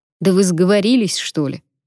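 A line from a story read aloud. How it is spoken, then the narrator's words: Grumbling. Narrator (Russian): пробурчал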